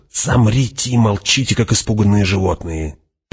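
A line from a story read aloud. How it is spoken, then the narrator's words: Hissing. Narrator (Russian): прошипел Фриман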